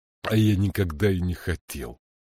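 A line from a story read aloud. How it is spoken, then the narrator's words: Grumbling. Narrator (Russian): проворчал он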